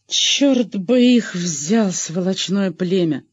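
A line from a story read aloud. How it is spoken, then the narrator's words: Through gritted teeth. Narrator (Russian): сквозь зубы проговорил лейтенант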